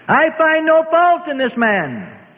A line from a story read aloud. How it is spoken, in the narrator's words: Pilate called out